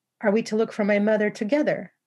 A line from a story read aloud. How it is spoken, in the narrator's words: I asked eagerly